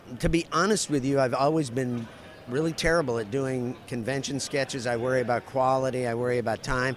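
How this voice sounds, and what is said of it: Strained, mostly lost voice. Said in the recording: “as you can tell by my voice, which is basically gone at this point”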